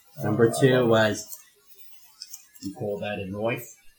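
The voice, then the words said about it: Put-on Australian accent. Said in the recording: “that's my Aussie. ... accent.”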